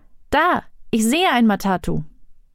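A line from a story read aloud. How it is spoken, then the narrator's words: Calling out. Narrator (German): Aduma rief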